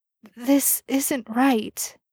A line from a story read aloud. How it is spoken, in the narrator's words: Chris whimpered